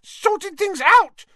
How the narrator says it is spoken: squealed Pettigrew, looking wildly about him

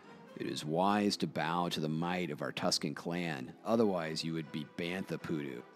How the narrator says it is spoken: translates Bug Eater from the growls and hoots of the Tuscan native tongue

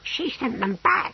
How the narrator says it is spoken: whispered Brocando urgently

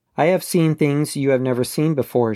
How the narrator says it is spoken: she said

